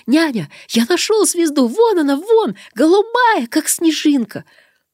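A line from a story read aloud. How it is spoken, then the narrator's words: Joyful child's shout. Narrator (Russian): вдруг обернулся к нам и радостно крикнул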